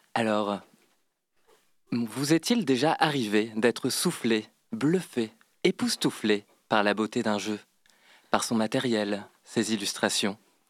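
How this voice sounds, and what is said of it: Smooth, suave voice. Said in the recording (French): “prendre ma voix la plus suave, suave”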